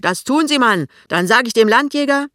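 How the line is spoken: Shouting back. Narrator (German): Pinneberg schreit zurück

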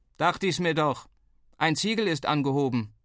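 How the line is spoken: Called downward. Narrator (German): rief er nach unten

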